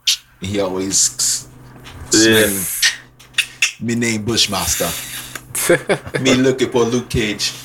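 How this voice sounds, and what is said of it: Poor put-on Jamaican accent. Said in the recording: “That was a horrible Jamaican accent.”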